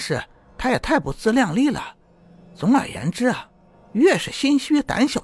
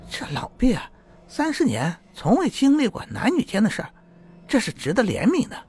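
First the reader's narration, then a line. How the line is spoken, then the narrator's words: Laughing reply. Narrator (Chinese): 女郎笑着答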